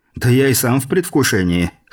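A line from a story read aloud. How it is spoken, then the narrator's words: Snorting. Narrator (Russian): хмыкнул француз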